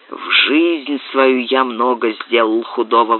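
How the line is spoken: Grumbling. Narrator (Russian): ворчал он

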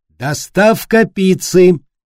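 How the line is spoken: Cheerful shout. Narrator (Russian): весело выкрикнула

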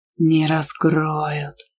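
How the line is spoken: Growled into ear. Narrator (Russian): прорычал на ухо бурундук

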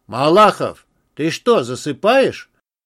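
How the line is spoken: Booming voice. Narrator (Russian): Прогремел голос Степанова

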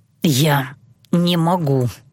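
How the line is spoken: Through gritted teeth. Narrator (Russian): сквозь зубы повторил Дилан

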